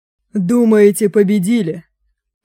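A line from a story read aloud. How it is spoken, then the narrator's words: Hoarse, defeated rasp. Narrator (Russian): прохрипел развенчанный лидер нации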